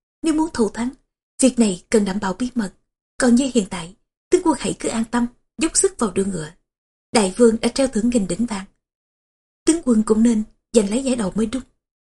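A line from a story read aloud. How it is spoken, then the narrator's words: Smiling question. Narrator (Vietnamese): Tôn Tận mỉm cười, lại hỏi thêm một câu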